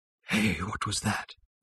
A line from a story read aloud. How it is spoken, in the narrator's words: he muttered voicelessly